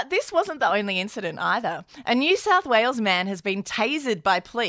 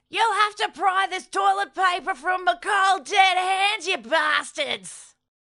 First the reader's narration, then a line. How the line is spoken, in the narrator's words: screaming